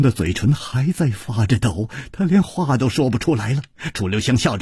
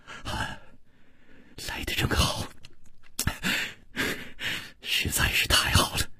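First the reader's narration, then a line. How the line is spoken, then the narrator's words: Gentle, soft. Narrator (Chinese): 楚留香柔声说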